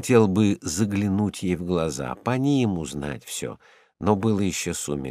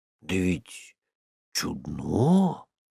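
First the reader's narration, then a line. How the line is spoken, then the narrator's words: Drawn-out, thoughtful. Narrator (Russian): протянул он задумчиво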